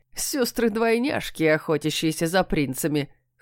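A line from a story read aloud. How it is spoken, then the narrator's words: Chuckle. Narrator (Russian): хохотнул кот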